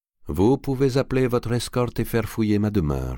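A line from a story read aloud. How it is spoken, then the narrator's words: Plain. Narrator (French): dit Ptolémée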